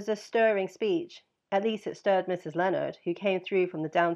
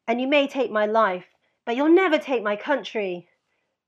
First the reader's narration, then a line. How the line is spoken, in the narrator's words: shouted from the landing